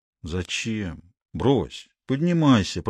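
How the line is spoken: Muttering. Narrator (Russian): пробормотал он

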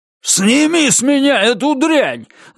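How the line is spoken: Yelled. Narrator (Russian): заорал он на Розу

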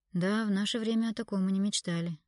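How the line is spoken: Sighing. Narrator (Russian): вздохнул Виктор

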